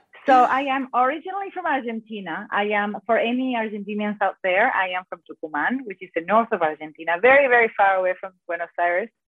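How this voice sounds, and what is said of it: Accented English speaker. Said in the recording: “that beautiful accent”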